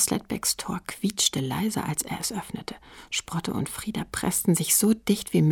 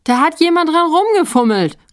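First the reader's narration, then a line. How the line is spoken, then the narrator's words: Calling out. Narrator (German): rief Stief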